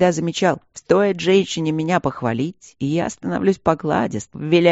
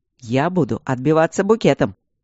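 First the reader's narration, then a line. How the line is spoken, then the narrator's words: Laughing. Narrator (Russian): Я расхохоталась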